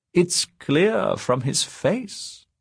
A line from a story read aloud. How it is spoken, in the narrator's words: said Funda Esser, smiling sweetly